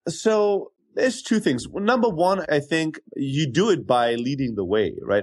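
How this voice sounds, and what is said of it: Unusual hard-to-place accent. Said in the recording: “this weird rando accent”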